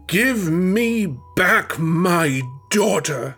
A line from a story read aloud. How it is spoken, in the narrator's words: he roared above the deafening music